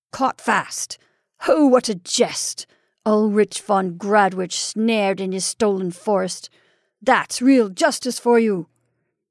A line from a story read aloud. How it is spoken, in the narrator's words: he laughed again, mocking and savagely